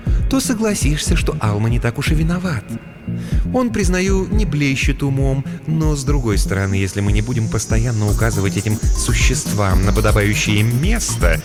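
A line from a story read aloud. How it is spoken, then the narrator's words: Ingratiating, insinuating tone. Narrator (Russian): вкрадчиво произнесла Ния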